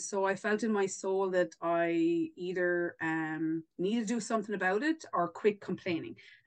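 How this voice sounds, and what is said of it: Irish accent. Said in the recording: “in case nobody realized by my accent there, I'm definitely not from the East Coast. I'm further afield. I am Irish.”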